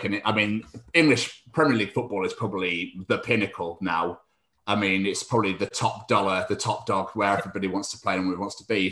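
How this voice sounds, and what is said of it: Scottish accent. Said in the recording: “I'm actually Scottish. I know the accent gives it away.”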